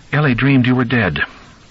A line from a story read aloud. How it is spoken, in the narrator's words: she said